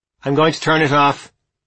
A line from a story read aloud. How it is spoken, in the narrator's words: she called out to the people gathered beneath the set